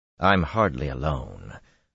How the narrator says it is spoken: Rand said dryly

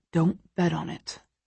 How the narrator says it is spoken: Christian mutters

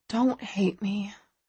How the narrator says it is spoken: I whisper

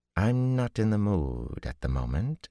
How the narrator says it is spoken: she said coolly

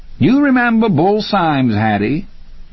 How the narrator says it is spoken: Hattie laughed

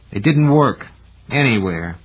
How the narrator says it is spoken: Gerhardt said grimly

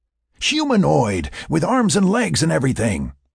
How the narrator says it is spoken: he exclaimed

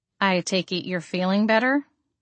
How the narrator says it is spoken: I asked him

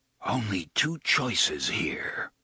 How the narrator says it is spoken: Roland whispers

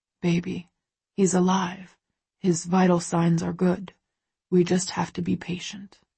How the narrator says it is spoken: he murmurs

